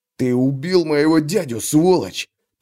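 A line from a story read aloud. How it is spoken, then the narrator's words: Hissed young man. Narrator (Russian): прошипел парень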